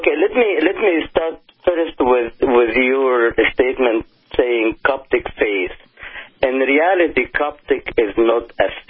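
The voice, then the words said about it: Mixed Arabic-Italian accent in English. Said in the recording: “my accent, because between Arabic, Italian, and English, you could imagine what kind of macaroni spaghetti here”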